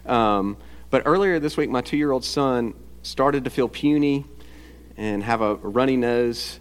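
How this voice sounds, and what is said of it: Sounds a bit sick. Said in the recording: “You may notice that I sound a bit sick, or I have been sick.”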